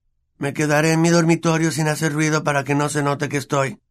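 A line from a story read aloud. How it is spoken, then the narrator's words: Flat expressionless voice. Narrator (Spanish): dijo Harry con voz inexpresiva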